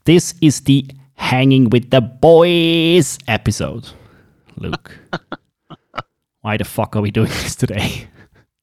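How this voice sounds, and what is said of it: Swiss English accent. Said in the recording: “It is in English and Swiss English ... bear with my accent.”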